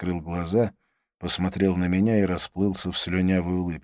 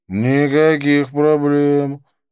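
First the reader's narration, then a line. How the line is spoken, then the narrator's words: Sleepy murmur. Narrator (Russian): промолвил он сонно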